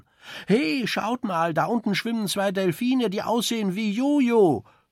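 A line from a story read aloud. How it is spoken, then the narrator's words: Sailor calling out. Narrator (German): ruft einer der Matrosen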